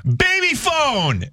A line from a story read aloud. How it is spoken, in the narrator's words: just out of the blue, I screamed